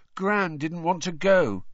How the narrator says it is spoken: he said miserably

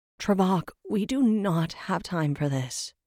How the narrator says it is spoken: Rin sighed

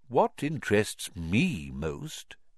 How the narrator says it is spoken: said Dumbledore gently

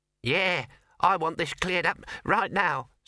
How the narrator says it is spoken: squeaked the mouse

